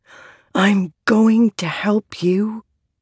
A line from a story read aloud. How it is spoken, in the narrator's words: Shallan whispered